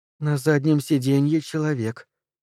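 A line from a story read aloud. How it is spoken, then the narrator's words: Quiet speech. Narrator (Russian): тихо говорит Люси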